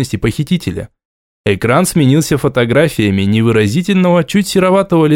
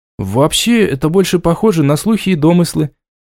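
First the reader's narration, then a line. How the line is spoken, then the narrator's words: Uncertain. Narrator (Russian): неуверенно отметил переводчик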